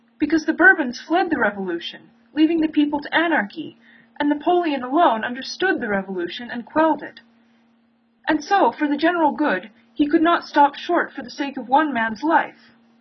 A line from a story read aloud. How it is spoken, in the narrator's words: he continued desperately